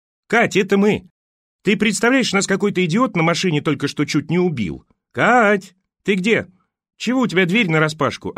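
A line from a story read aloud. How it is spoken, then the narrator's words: Yelling. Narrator (Russian): орала Маня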